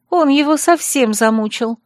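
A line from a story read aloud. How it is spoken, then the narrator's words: Sighing. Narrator (Russian): вздохнула Хлоя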